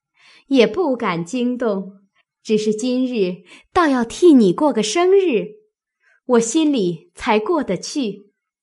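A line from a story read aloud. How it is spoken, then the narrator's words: Laughing. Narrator (Chinese): 探春笑道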